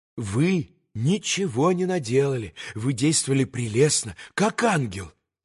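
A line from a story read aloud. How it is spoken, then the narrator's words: Quick, delighted whisper. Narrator (Russian): Быстро и восторженно зашептала горестному Алеше госпожа Хохлакова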